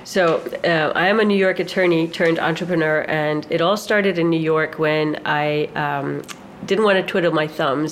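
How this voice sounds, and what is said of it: Slight New York accent. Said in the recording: “there's a slight New Yorker accent”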